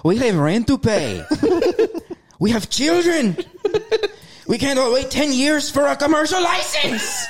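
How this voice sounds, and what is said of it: Imitated vendor voice turning German. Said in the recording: “he turned German at the end of that”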